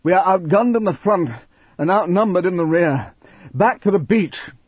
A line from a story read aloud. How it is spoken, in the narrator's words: panted